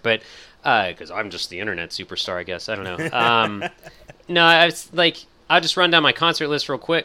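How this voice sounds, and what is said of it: Strained, fading voice. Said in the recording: “I did a podcast earlier today, so I'm like losing my voice left and right here.”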